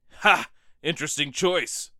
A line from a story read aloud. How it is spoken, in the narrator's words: Brock called out